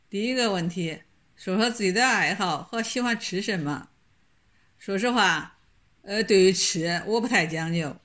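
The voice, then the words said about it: Shandong dialect. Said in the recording (Chinese): “用山东话”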